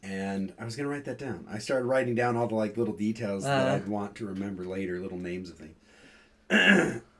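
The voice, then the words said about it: Strained, fading voice. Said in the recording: “I'm starting to lose my voice.”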